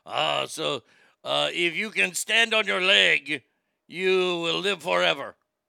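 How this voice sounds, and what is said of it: Put-on gruff grizzly accent. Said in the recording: “I'm just going to do my catch-all grizzly accent here”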